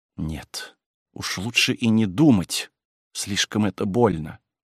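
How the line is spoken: Anguished mutter. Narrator (Russian): только пробормотала в смертельной тоске

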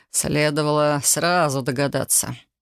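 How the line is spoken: Knowing snort. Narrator (Russian): хмыкнул Элай

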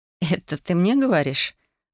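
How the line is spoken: Laughing. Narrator (Russian): Рассмеялась я

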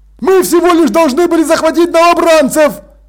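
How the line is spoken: Sergeant shouting. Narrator (Russian): крикнул сержант

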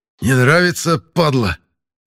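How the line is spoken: Hoarse rasp. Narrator (Russian): прохрипел я

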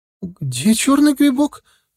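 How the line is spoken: Frightened question. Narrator (Russian): испуганно озираясь по сторонам, спросила Маша

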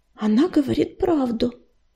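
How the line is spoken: Soft confirmation. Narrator (Russian): мягко подтвердила Листвечка

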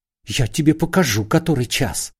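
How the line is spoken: Hateful hiss. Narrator (Russian): шипел Корейка, вкладывавший в свои удары вековую ненависть богача к грабителю

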